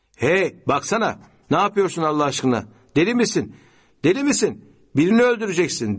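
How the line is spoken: Shouted. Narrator (Turkish): diye bağırdı

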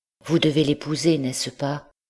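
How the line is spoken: Anguished, broken voice. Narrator (French): dans une de ces crises de désespoir, Blanche lui dit, d'une voix déchirée

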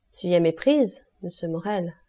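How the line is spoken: Plain. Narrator (French): répondit le commissaire

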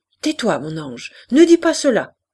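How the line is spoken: Mother shouting. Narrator (French): cria la mère

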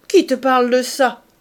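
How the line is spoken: Shouting. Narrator (French): cria-t-il

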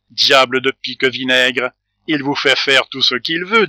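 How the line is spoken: Plain. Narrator (French): dit le gardien

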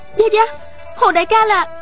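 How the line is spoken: Exclaiming. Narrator (Vietnamese): Miêu Nhược Lan kêu lên

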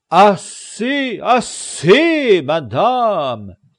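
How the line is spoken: Exclaimed. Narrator (French): s'écria Don Quichotte

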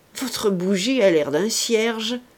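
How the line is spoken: Sneering laugh. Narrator (French): dit encore Dupoisat en ricanant

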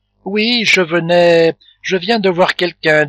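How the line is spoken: Ashamed stammering. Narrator (French): dit Fleur de Marie en balbutiant et en rougissant de honte

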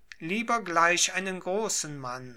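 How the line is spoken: Lord exclaiming. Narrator (German): rief der Lord

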